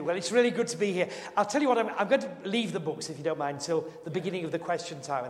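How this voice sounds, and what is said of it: Yorkshire accent. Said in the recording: “I hope you can cope with my Yorkshire accent. Can you understand me?”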